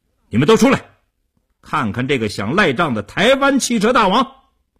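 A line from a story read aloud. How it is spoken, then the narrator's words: Fierce raised shout. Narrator (Chinese): 叶成坚恶狠狠地，提高声音对李屋喊道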